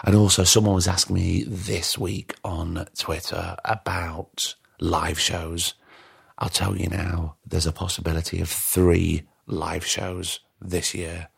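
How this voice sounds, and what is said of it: Tired, fading voice. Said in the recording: “Can you hear my voice is going? ... I'm tired.”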